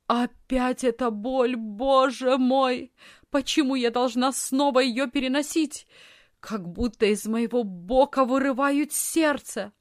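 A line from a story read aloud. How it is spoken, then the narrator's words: Sudden loud moaning cry. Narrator (Russian): Вдруг она громко застонала и закричала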